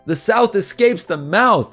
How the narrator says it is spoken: they yelled as they were horrifically crushed by a tentacle

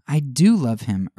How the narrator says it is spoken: earnestly rejoined the avenger

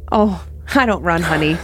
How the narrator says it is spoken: she laughed

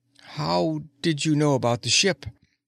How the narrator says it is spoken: he asked in a dazed voice

